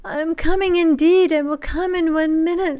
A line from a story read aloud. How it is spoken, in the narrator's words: sobbed his wretched wife